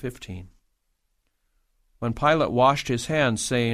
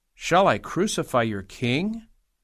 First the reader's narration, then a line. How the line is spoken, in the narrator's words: Pilate asked